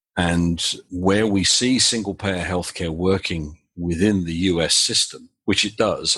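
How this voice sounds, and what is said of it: British accent. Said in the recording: “As is fairly obvious from my accent, I'm British originally”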